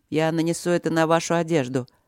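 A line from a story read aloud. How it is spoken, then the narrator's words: Calm explanation. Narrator (Russian): объяснил спокойно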